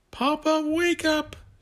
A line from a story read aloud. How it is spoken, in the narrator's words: Jason yelled